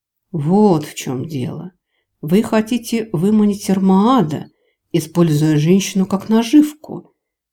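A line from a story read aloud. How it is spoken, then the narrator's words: Relieved sigh. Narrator (Russian): С облегчением вздохнул император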